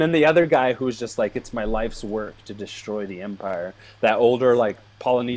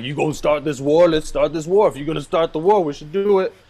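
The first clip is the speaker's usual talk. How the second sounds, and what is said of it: Imitates another person's voice. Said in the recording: “this is like, like, your fourth time doing that, that, that impression. ... I'm trying to work on my Forest Whitaker.”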